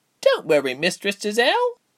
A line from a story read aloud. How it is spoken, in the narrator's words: Gilly chirped happily